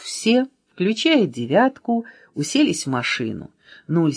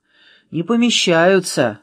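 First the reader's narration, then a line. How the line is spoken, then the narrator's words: Sorrowful sigh. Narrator (Russian): сокрушенно вздохнул Нуль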